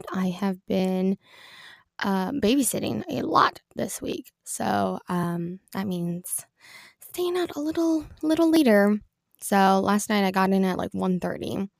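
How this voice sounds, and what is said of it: Congested, stuffy-sounding voice. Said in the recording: “Sorry if my voice sounds a little congested.”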